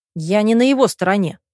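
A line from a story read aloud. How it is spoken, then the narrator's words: Curt, cutting. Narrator (Russian): отрезал брат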